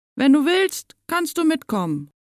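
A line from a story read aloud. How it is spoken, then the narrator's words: Calling out. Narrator (German): ruft Sophia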